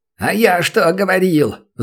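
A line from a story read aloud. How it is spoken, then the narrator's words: Loud yell. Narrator (Russian): заорал лысый чебурашка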